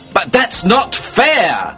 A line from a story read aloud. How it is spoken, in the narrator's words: I shouted